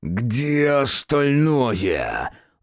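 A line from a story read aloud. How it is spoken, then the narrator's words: Strangled growl. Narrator (Russian): сдавленно прорычал Асмодей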